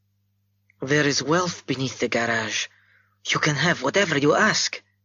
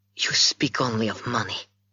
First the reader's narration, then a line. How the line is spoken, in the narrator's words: she breathed